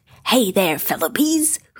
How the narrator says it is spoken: Tigger shouted

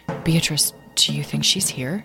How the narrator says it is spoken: asked Tom quietly, looking around him uneasily

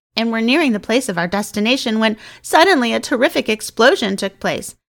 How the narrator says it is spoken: sobbed

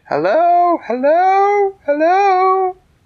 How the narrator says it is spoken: shouted

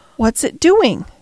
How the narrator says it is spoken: cried Colin

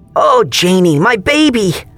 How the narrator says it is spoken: Aunt Karen squealed

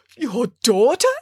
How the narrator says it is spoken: exclaimed Bramwell

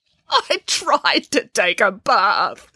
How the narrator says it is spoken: sobbed Boris

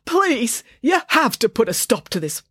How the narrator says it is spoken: pleaded the manager, as he wrestled

